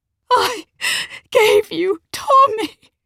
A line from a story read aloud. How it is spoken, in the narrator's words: said between sobs